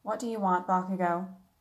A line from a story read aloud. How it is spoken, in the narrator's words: in the least friendly tone she could muster